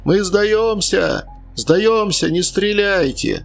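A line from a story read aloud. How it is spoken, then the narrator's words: Strained desperate yell. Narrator (Russian): из фортика кто-то надсадно заорал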